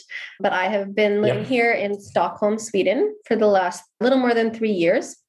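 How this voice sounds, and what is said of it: American English accent. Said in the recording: “I'm from the US originally. You can probably tell by my accent”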